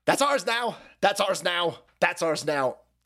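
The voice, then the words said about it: Bad put-on Chinese accent. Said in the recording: “that's a world's worst Chinese accent”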